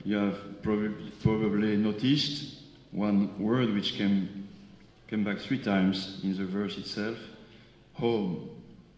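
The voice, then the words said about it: Slightly strange foreign accent. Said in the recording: “I have a little strange accent”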